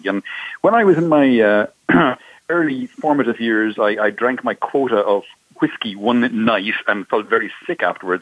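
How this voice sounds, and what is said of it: Irish accent. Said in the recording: “I'm obviously from my accent, I'm Irish.”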